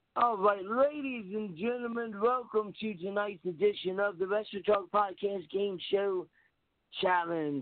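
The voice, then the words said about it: Game show host voice. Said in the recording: “your best impression of a game show host”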